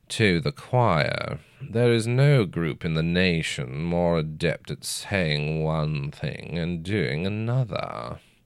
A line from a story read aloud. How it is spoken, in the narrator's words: the youngest of the judges drawled